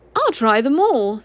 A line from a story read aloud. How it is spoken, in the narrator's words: said Christopher Robin cheerfully